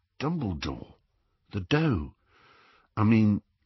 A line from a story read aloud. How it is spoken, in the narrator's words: Ron looked a little embarrassed, but said in a low voice